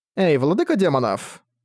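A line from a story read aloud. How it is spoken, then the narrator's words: Cheerful voice. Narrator (Russian): бодрым голосом молвила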